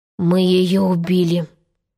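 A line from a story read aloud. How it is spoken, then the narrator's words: Hoarse remark. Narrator (Russian): хрипло заметил кончик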